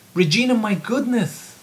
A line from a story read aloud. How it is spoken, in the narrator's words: Otto exclaimed